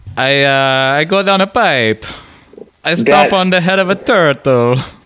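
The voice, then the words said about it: Mock Italian-Russian accent. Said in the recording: “I can't tell if I have a Russian accent or the Italian accent. It's sort of a midway between them.”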